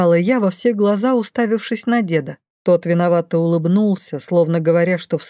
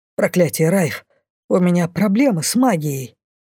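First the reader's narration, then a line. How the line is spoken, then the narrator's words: Angry exhale. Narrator (Russian): Зло выдохнул Лайс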